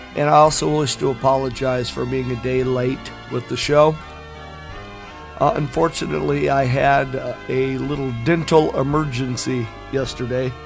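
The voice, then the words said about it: Sick, flu-affected voice. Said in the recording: “Please forgive my voice. I am still struggling with the flu”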